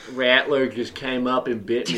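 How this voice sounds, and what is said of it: Put-on Southern accent. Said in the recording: “We all are like kind of sitting into the southern accent”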